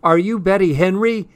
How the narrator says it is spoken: yelled

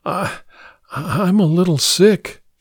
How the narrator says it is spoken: she whispered weakly

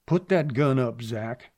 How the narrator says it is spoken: Clay said stiffly

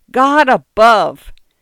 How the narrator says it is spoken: he heard himself yelling in an unbelievably loud voice

